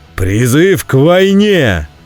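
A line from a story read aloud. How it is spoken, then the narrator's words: Roared. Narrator (Russian): взревел Вульфгар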